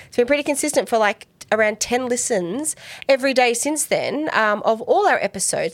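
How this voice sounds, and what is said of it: Australian accent. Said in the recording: “We hope you like our Australian accents.”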